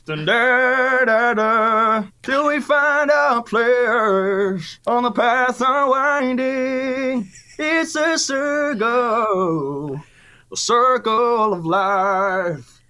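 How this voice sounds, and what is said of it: Sings imitating another person's voice. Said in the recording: “my best Elton impression”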